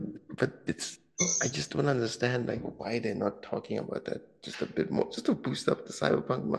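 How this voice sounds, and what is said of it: Usual voice. Nothing is said of it.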